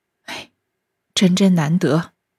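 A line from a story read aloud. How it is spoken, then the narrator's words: Sighing. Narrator (Chinese): 宝玉叹道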